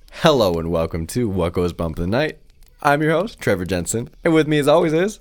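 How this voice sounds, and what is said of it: Slightly stuffy, congested voice. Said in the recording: “I survived my allergies. I'm a little stuffy”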